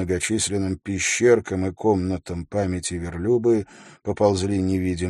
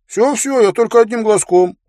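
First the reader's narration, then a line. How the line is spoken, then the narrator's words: Giggled. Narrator (Russian): он хихикнул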